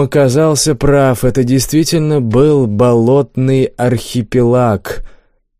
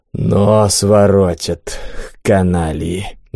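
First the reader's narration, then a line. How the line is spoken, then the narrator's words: Annoyed exhale. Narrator (Russian): досадливо выдохнул Бум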